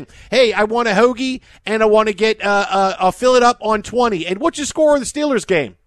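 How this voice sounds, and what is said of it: Put-on Philly/Pennsylvania accent. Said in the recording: “why is he doing his Philly accent? ... No, it's a greater Pennsylvania accent. It's Pittsburgh. It's Philadelphia.”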